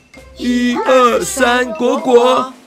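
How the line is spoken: Happy group laughter. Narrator (Chinese): 大家开心的大笑

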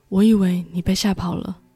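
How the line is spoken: Soft, gentle. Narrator (Chinese): 玛丽安……轻声地说

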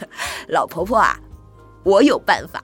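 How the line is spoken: Laughing. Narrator (Chinese): 杰克笑着说

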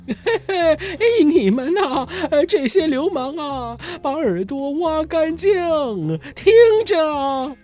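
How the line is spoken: Bursting into loud laughter. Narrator (Chinese): 唐吉诃德突然哈哈大笑，说

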